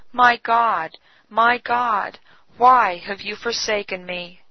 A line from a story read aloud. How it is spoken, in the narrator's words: he exclaimed with a bitter cry